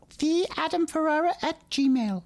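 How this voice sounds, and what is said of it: Imitates another person's voice. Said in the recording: “Honey, do you have a cold? ... doing a stupid impression of me”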